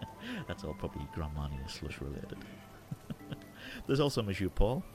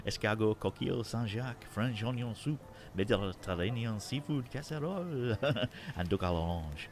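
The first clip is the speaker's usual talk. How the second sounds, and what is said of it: Put-on French accent. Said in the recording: “My best French accent.”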